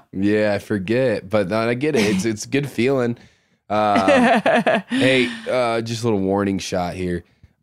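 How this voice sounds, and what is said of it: Sick, off-sounding voice. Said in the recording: “I've got the flu, Ash. I am under the weather, yep. So my voice is going to be very off”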